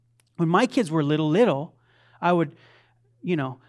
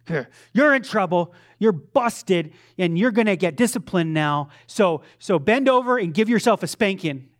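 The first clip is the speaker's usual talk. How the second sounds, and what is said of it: Theatrical stern dad voice. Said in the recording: “You get my dad voice ... It's just theatrical.”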